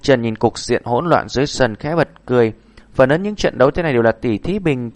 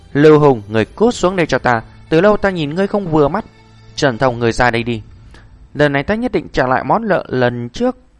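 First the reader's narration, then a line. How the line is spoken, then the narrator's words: Repeated loud shouting. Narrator (Vietnamese): liên tục hét to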